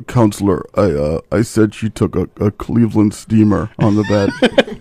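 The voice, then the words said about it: Imitates another person's accented voice. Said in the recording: “what is with that accent?”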